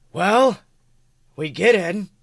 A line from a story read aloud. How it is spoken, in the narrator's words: Merle growls